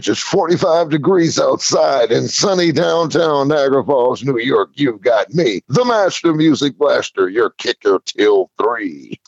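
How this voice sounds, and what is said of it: Radio DJ announcer voice. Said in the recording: “that Master Music Blaster DJ voice”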